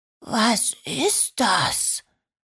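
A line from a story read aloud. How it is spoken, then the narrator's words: Awed whisper. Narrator (German): flüsterte Georgina ehrfürchtig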